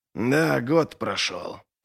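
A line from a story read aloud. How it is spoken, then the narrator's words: Grumbling. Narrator (Russian): проворчал Доу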